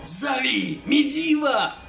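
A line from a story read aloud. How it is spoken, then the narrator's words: Roaring. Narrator (Russian): проревел Кадгар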